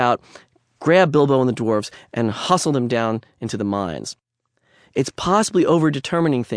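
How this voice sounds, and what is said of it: Usual voice. Nothing is said of it.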